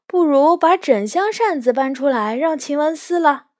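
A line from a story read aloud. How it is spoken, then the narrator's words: Angry shout. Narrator (Chinese): 麝月气得大叫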